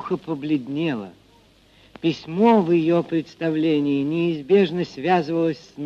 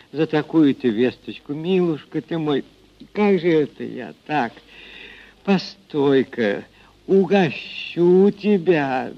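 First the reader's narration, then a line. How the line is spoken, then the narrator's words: Incoherent mumbling. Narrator (Russian): Бессвязно бормотала она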